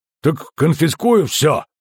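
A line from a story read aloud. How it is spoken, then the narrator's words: Angry bark. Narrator (Russian): зло рявкнул Ольсен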